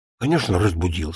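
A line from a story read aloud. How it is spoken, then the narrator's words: Plain. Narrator (Russian): сказал Баранов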